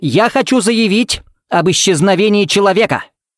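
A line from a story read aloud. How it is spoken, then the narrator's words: Barked. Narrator (Russian): рявкнул Смит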